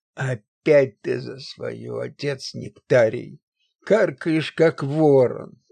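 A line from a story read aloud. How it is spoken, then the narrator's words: Grumbling. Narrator (Russian): проворчал Паисий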